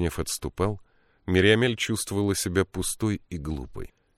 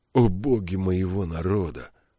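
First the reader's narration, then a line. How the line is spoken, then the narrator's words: Groaning. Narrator (Russian): простонал Кадрах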